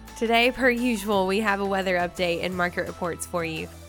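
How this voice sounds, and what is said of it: Southern twang accent. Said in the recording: “Did y'all miss my southern twang?”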